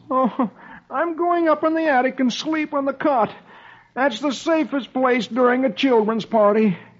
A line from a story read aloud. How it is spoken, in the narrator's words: poor, tired Dagwood, he groans